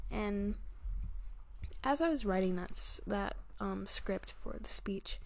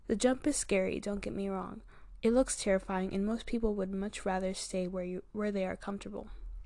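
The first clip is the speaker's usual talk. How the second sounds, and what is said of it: Speaking very fast, rushed. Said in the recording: “I rushed through it. ... wow, I'm talking really fast.”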